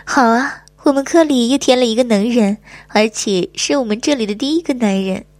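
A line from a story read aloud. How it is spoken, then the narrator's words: Laughing. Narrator (Chinese): 我笑着说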